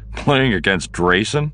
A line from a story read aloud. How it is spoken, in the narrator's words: Han said with a snort